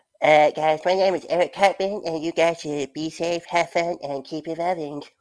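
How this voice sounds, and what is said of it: Cartoon character voice impression. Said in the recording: “I do this impression of Eric Cartman, but sometimes it's not as good as it should be”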